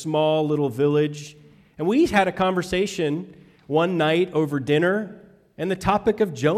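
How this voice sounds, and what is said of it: Usual voice. Nothing is said of it.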